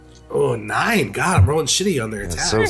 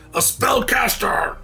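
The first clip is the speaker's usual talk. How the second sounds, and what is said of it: Yelled orcish character voice. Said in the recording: “You hear him yell with his orcish accent”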